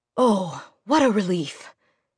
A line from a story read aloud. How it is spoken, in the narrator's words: sighed